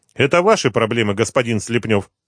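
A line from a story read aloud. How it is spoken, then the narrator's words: Quick mumble. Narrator (Russian): быстро пробормотал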